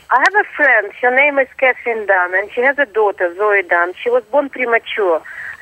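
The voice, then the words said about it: Russian-sounding accent. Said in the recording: “I'm not really Russian. I'm Australian, but I do sound Russian. My accent radiates from your walls.”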